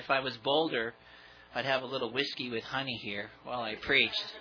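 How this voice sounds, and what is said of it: Strained, unwell-sounding voice. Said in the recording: “I do apologize for my voice. I know it can be a pain to hear this”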